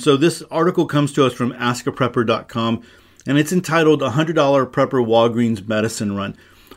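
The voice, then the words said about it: Congested, stuffy-sounding voice. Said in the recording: “I'm dealing with a little bit of congestion and sinus pressure and all that good stuff. So I don't know if you can hear it in my voice.”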